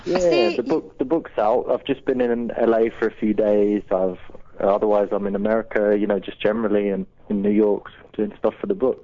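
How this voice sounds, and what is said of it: British accent. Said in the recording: “I just want to hear you talk because it's really sexy ... you like the accent ... I'm from the UK”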